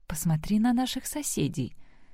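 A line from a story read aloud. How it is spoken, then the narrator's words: Whispering. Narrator (Russian): зашептала Сэм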